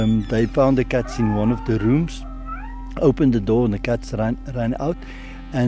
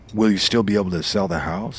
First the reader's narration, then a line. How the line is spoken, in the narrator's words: he asks